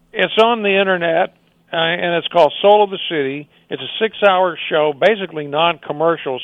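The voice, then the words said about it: Damaged, worn-out voice. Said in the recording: “Excuse my voice. It's just a shot.”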